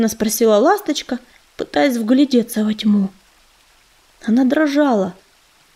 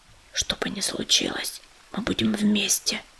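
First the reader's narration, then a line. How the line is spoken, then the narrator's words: Whisper. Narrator (Russian): прошептал он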